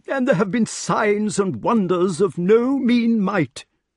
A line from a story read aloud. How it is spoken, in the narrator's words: cried King Pellinore, feeling important